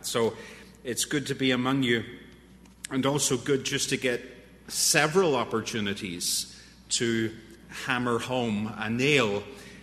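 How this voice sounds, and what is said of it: Irish accent. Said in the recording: “some strange Irishman with a funny accent”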